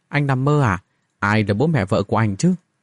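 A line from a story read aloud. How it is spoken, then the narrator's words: Awkward, unnatural voice. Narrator (Vietnamese): cô nàng nói với giọng không được tự nhiên cho lắm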